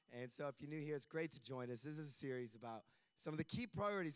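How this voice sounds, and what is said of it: Worn-out, strained voice. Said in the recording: “this is not always what I sound like. ... My voice is a little bit worse for wear at the moment. You can tell that because I'm talking.”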